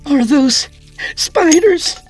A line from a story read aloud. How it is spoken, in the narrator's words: Katrina cried